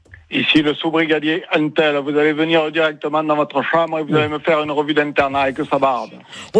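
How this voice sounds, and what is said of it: Put-on strong Marseille accent. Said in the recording (French): “Tu peux me refaire l'accent que t'avais fait ... on est sur Marseille ... il avait vraiment un accent bien trempé”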